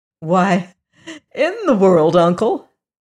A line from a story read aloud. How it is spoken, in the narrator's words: answered Zeb with a laugh